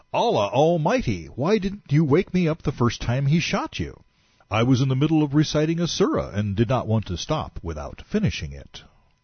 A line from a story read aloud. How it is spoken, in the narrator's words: Then the emigrant, seeing the Ansari's blood-stained condition, exclaimed